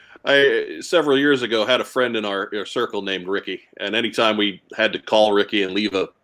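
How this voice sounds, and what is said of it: Usual voice. Nothing is said of it.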